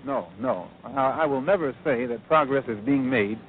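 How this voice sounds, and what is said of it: Fast, hearty speech. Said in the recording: “I'm talking so fast and so hearty.”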